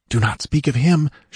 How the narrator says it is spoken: she whispered

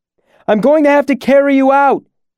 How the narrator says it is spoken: shouted

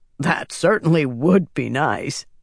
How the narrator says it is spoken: Quillen said, chuckling

